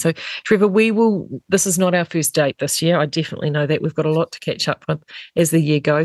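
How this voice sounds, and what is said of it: New Zealand accent. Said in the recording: “great to hear a Kiwi accent”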